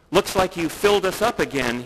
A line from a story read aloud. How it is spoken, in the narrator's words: he said